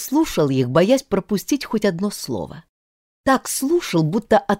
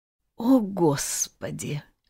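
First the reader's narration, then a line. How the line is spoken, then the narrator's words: Quiet, desperate. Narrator (Russian): вдруг тихо и отчаянно произнесла мама Тани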